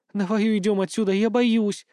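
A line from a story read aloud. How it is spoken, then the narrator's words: Trembling, pleading, behind someone. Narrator (Russian): дрожащим голосом попросила за его спиной Ильга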